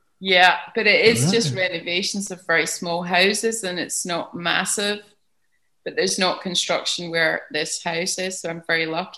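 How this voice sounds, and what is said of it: Strong Scottish accent. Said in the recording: “I could hear that you're Scottish ... the accent is a strong one. It's a strong one.”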